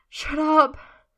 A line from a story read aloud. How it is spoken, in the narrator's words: Merlin says breathlessly, shuddering